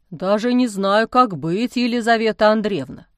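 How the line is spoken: Glum admission. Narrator (Russian): уныло признался отец Амвросий

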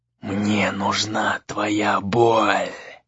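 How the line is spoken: Menacing spirit hiss. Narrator (Russian): прошипел дух

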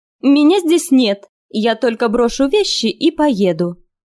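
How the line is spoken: Shout. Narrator (Russian): она крикнула

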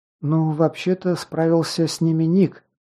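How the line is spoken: Quiet mutter. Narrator (Russian): тихо пробормотала Лесла

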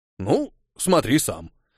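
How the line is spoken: Teacher's snort. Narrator (Russian): хмыкнул учитель

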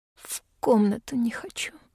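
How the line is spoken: Unexpectedly hoarse reply. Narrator (Russian): отвечаю неожиданно хрипло

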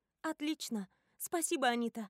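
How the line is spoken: Joyful reply. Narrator (Russian): радостно откликаюсь я

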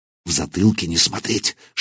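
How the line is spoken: Whispered. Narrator (Russian): шепнул он

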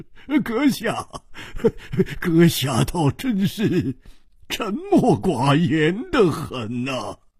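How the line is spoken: Loud laughter. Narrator (Chinese): 秋瓷王大笑说

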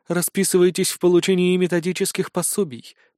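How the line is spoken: Flat, colorless command. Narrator (Russian): приказала она бесцветным голосом

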